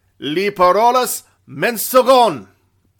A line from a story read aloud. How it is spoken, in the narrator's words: bellowed the Houston